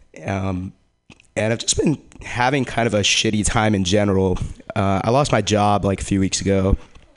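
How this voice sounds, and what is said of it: Weak, cold-affected voice. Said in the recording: “my radio voice is just not coming out today. I'm recovering from a cold.”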